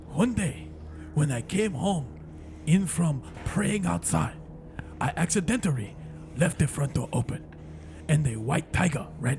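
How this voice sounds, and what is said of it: Put-on Asian accent. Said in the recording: “Asian. ... Just remember, all your L's have to be R's.”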